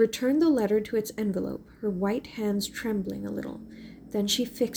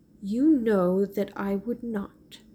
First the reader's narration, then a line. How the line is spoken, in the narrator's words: said Mary